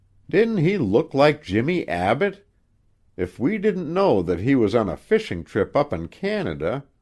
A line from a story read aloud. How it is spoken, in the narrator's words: One of the ladies exclaimed